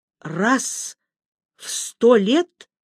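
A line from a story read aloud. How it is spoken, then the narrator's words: Forced out, astonished. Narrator (Russian): выдавила я, пораженная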